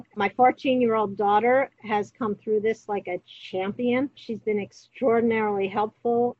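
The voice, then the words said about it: New York accent. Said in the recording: “New York, where I grew up, if you couldn't tell from my accent or my demeanor”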